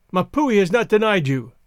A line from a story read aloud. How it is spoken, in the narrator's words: he cried